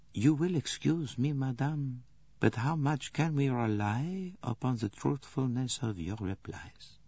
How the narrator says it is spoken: Poirot said the words very softly

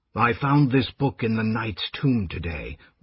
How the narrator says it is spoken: Raistlin said in a smothered whisper

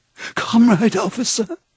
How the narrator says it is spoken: he cried

